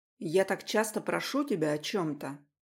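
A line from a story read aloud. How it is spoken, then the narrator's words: Irritated, regretful question. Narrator (Russian): раздраженно поинтересовался я, уже жалея, что я вообще набрал этот номер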